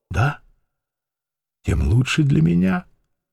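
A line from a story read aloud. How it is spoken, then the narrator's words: Calm. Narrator (Russian): спокойно проговорила Медынская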